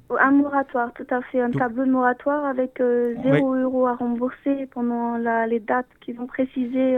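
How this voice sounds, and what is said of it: Noticeable pleasant accent. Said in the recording (French): “vous avez un très joli accent.”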